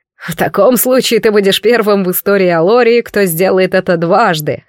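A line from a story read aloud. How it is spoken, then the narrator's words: Snorting. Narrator (Russian): хмыкнул Лаверн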